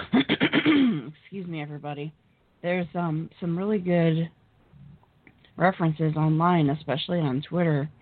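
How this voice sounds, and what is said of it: Hoarse, fading voice. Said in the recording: “I'm totally losing my voice.”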